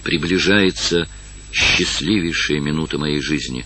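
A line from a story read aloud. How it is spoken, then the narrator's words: Whispered. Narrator (Russian): прошептал он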